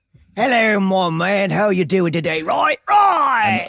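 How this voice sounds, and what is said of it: Poor put-on English accent. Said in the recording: “doesn't have a great English accent”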